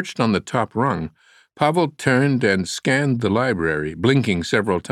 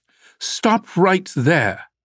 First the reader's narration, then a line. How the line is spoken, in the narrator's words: a woman's authoritative voice shouted